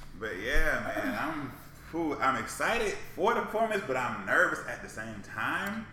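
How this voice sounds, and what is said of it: Usual voice. Nothing is said of it.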